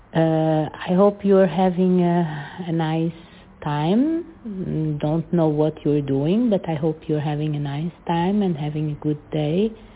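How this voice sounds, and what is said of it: Strong Portuguese accent in English. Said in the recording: “a very strong accent ... a strong Portuguese accent”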